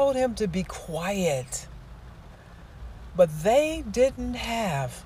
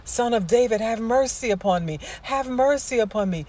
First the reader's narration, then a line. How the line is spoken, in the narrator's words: When the blind man saw passing by, blind, he cried out to the Lord